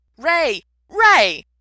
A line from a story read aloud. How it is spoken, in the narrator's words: G shouted